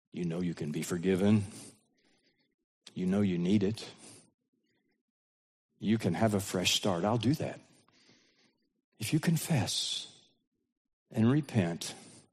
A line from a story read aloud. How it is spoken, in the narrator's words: God would whisper to her through her conscience